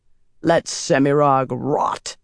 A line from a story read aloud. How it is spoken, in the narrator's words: Moradin growled